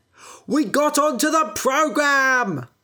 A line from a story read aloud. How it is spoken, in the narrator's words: shouted